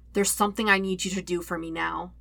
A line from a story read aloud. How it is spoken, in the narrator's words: he says softly